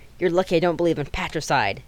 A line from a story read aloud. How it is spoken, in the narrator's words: Dean snapped